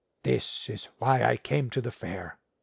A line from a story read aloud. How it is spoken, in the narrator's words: Clarence said quietly